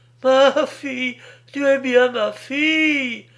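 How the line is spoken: Woman's emotional exclamation. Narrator (French): s'écria la pauvre femme

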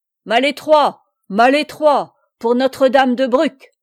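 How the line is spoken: Shouted. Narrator (French): cria à son tour Amaury

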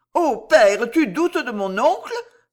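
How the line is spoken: Exclaiming. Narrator (French): s'écria-t-elle

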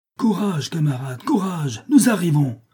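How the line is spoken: Shouting over the uproar. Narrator (French): crie Jean de Fer d'une voix qui domine le tumulte

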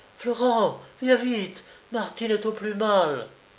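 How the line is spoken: Desperate chanted cry. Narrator (French): Antoinette scanda d'un ton désespéré

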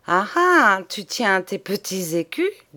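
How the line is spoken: Said laughing. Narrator (French): dit-elle en riant

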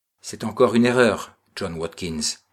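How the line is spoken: Curt reply. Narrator (French): répliqua Jacobus van der Gart d'un ton bref

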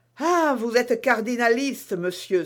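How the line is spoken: Exclaimed. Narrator (French): s'écria-t-elle

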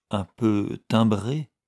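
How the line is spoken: Stammered. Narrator (French): balbutia Lady Audley

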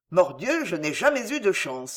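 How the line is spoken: Grumbling. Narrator (French): grommela Pardaillan

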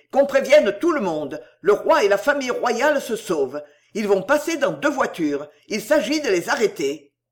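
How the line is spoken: Shout. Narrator (French): cria Drouet

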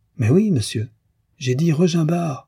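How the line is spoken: Exasperated exclamation. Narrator (French): s'écria Frédéric exaspéré

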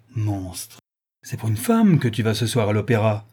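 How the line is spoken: Brazen woman exclaiming. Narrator (French): s'écrie l'effrontée créature

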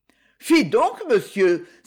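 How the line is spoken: Young woman, feigned indignation. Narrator (French): s'écria la demoiselle avec une feinte indignation

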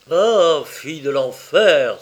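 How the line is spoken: Exclaimed. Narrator (French): s'écria-t-il

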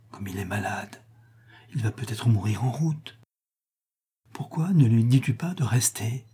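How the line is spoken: Whispered. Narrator (French): dit tout bas René

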